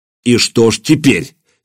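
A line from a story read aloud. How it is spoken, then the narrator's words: Angry. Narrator (Russian): сердито произнес Владимир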